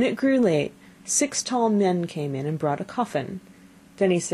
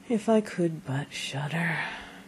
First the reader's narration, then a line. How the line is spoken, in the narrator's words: said quite sadly